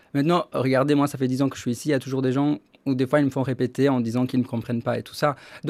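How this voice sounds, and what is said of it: Charming foreign accent in French. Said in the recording (French): “vous avez un accent charmant”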